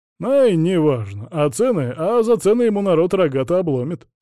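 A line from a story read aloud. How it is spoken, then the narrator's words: Chuckle. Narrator (Russian): хохотнул он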